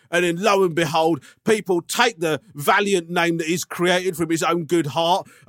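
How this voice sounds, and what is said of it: Lyrical Russell Brand impression. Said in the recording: “I love the way I've become more and more like Russell Brand in this impression... Started off like you were doing an impression of me, stroke Ray Winstone. It's ended up being like a lyrical Russell Brand.”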